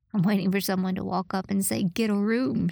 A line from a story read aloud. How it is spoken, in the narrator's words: said, and then laughed